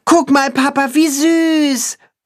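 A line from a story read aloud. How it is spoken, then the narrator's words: Boy calling out. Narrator (German): ruft der Junge seinem Vater zu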